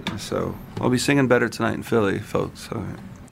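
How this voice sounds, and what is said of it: Slightly scratchy voice. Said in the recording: “I just woke up, so my voice is a little bit scratchy.”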